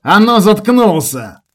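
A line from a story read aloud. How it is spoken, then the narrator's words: Otter's shout. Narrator (Russian): выкрикнул выдр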